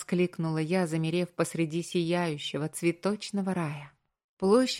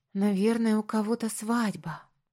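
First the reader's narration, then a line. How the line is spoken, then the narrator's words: Breathless, admiring. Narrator (Russian): выдохнула я, восхищенно оглядываясь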